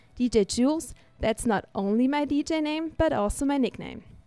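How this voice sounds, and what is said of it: German accent, non-native English speaker. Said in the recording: “I've got a special accent and that I'm not a native speaker too ... I'm actually from Germany”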